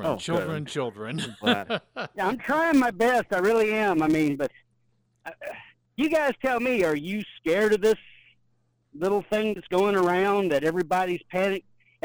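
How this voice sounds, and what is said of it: Regional Southern US accent. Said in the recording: “My accent, I can't help it.”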